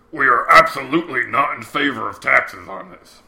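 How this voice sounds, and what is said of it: Imitates another person's voice. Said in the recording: “Do it in your best J. Alexander M. Sandy Douglas Jr. impersonation.”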